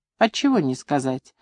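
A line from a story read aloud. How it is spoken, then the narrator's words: Calm, grandmother. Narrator (Russian): спокойно молвила бабушка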